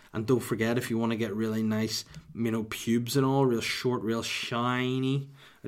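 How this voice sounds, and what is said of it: Put-on accent. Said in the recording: “I don't know why I went in that accent.”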